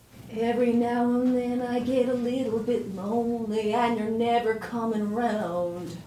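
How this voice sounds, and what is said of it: Singing in a weird country-show accent. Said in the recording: “your accent, you're doing a weird accent that you don't do in the rest of the song ... It sounds like you are suddenly on like Hee Haw.”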